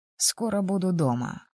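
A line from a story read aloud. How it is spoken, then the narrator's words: Pleased, slightly tired voice. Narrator (Russian): обрадовал Логинов, его голос звучал немного устало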